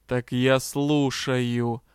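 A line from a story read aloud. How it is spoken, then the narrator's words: Hissing vampire. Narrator (Russian): прошипел вампир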